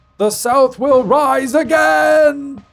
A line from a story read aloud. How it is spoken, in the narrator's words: he shouted